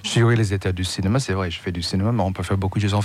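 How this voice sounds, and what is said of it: American accent speaking French. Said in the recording (French): “je suis un Américain à Paris ... malgré mon accent”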